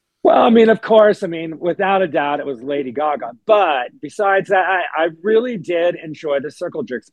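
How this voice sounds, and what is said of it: Hoarse, strained voice. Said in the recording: “excuse my voice. I'm still recovering from Coachella... I was screaming... I lost my voice”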